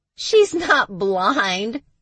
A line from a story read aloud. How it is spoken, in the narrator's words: Max said, laughing